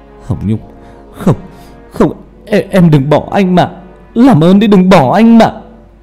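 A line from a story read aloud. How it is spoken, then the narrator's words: Sobbing. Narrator (Vietnamese): Hà khóc lên nức nở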